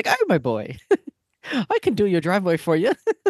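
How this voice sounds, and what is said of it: Thick put-on Irish accent. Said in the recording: “the thickest Irish accent”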